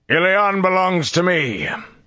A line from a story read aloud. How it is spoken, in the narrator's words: The voice boomed in the air from every direction